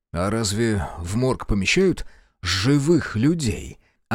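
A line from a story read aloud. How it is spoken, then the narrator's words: Inquiring. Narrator (Russian): осведомился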